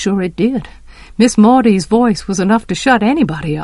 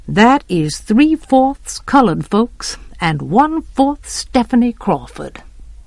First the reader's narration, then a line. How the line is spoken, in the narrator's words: said Miss Maudie grimly